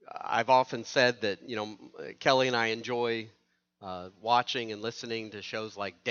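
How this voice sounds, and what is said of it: Usual voice. Nothing is said of it.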